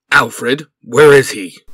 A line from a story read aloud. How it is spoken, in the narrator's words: Nightwing asked sternly